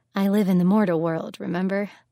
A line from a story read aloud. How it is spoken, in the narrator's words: He chuckled a little